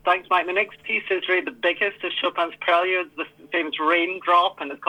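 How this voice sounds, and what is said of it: Scottish accent. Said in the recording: “He's originally from Scotland, and so you're not going to hear a German accent, but you definitely will hear someone from Scotland.”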